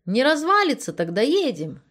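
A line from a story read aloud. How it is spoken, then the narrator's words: Cheerful. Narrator (Russian): весело заявил Анатолий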